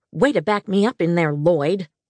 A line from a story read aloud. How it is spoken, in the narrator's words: Fran snapped